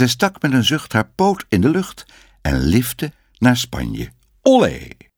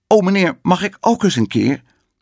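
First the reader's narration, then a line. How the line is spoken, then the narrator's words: Calling out. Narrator (Dutch): ze riep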